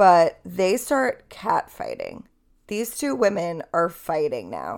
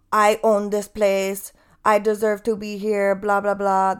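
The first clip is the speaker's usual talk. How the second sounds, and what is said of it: Poor put-on Armenian accent, yelling. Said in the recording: “she starts yelling at her in Armenian ... That's a terrible accent.”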